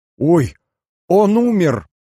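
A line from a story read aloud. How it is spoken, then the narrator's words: Frightened wailing. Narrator (Russian): запричитала Альбина, испуганно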